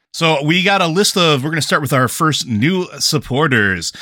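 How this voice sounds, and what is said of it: Announcer voice. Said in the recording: “do your announcer voice?”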